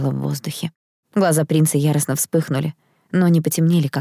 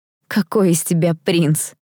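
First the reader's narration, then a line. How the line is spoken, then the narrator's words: Ringing laugh, female. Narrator (Russian): рассмеялась я звонко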